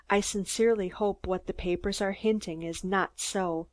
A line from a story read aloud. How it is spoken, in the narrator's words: in a hushed voice, and finished by whispering